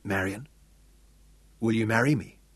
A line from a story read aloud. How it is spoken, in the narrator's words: asked quietly